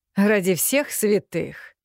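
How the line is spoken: Short low laugh. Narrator (Russian): Мастер Корбиник коротко-низко хохотнул

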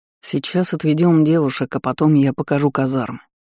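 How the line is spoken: Sighing. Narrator (Russian): вздохнул Даррен

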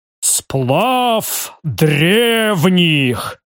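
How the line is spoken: Booming bass. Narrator (Russian): громогласно пробасил барон

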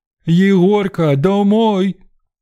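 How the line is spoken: Booming old woman's call. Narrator (Russian): зычным голосом оповестил божий одуванчик на три двора

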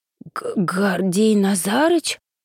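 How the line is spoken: Disbelieving wheeze. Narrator (Russian): просипела я, не веря собственным глазам

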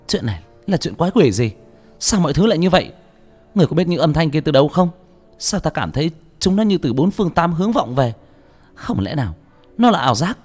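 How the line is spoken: Terrified scream. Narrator (Vietnamese): Cô kinh hãi hét lên

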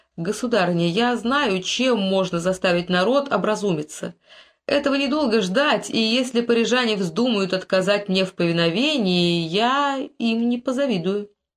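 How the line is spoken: Calm. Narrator (Russian): Генрих спокойно сказал

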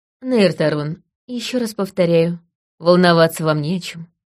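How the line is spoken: Calm. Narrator (Russian): сказала я спокойно

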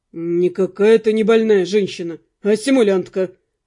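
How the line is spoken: Rude reply. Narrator (Russian): грубо ответил

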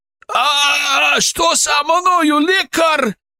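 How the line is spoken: Wailing scream. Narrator (Russian): завопил он

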